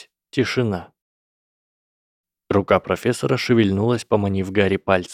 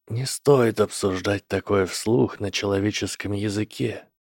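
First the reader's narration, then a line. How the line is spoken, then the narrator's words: Quiet. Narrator (Russian): тихо сказал профессор Квирл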